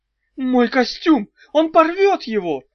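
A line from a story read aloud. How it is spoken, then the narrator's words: Sudden high-pitched shriek. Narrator (Russian): неожиданно тонко завизжал Маржуев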